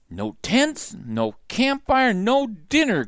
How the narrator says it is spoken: grumbled Donald

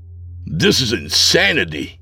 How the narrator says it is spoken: I spat back

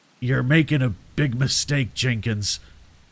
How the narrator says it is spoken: I growled

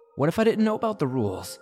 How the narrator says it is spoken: I said, gasping at straws

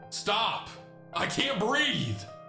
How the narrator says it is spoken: my mother then screaming

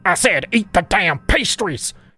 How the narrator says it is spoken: barked again, her greasy face quickly turning beetroot red as she spoke in anger

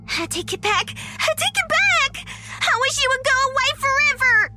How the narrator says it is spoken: Susie suddenly screamed from under the blanket

